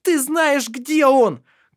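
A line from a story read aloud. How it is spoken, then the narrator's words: Furious shout. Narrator (Russian): крикнула она яростно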